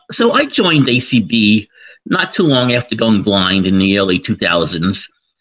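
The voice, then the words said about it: New York accent. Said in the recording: “my obvious New York accent”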